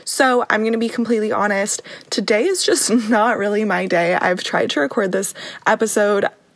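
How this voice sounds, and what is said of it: Raspy, sore-throated voice. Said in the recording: “I also woke up with a sore throat ... my voice is a little bit raspier than usual”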